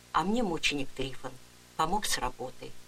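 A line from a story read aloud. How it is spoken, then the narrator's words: Quiet, young woman. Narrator (Russian): тихо сказала молодая женщина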